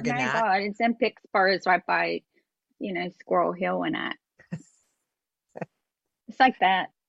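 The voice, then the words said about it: Put-on Pittsburgh accent. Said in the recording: “We have to do our Pittsburghese. We just have to do the Pittsburgh accent.”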